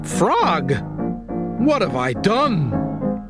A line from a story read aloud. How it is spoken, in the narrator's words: cried Toad